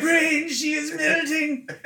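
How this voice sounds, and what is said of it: Mock French accent. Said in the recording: “It's in a French accent. ... A French ... accent.”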